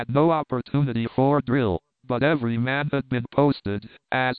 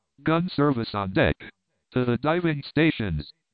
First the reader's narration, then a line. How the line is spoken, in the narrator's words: I snapped out